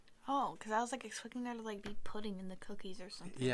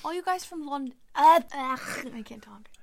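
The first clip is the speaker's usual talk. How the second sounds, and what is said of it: Attempted British accent. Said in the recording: “speak in a British accent ... I'm trying my hardest here, so tell me if I'm doing a good job ... I'm probably not ... I'm, like, not pronouncing O's right”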